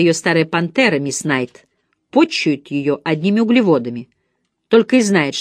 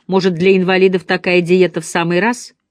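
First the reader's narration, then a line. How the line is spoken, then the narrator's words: Vague grumble. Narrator (Russian): неопределенно пробурчал Джим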